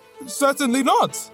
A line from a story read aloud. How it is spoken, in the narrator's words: he cried